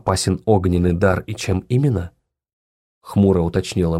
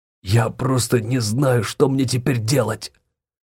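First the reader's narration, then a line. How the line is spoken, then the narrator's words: Exhaled. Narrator (Russian): Выдохнул он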